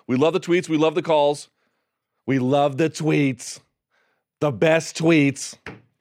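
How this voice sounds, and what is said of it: Terrible Donald Trump impression. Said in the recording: “my terrible Trump impression”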